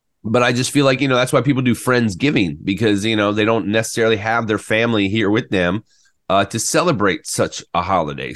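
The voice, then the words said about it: Scratchy, choked-up voice. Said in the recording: “my throat's getting a little choked up ... I'm a little scratchy right now in my throat”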